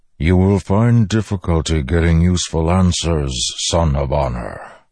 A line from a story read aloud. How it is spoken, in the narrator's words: the Stormfather rumbled